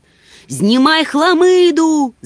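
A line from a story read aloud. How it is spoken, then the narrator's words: Shouting. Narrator (Ukrainian): закричав Нюхмумрик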